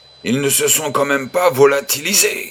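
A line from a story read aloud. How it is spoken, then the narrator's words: Pilot exclaiming. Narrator (French): s'exclama le pilote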